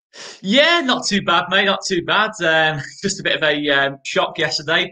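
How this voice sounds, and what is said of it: Leeds accent. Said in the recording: “As you can tell from his accent, he'll be a Leeds fan”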